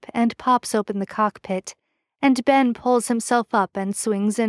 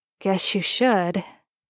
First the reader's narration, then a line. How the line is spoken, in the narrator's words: he murmurs, giving Ben a little smile that's almost sly